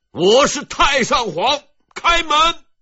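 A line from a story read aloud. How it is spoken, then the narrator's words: Furious roar. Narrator (Chinese): 七年的屈辱、恐惧和等待，最终换来了这一声怒吼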